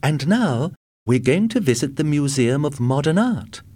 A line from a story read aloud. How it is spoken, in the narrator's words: she said brightly